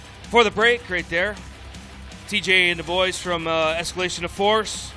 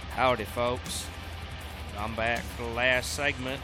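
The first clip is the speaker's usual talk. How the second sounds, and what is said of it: Put-on Southern US accent. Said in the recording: “talk in this southern accent for a second or two”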